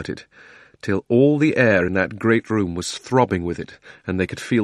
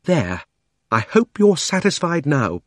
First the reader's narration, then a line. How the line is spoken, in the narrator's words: panted Polly